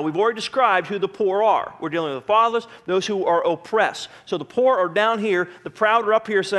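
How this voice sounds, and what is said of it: Usual voice. Nothing is said of it.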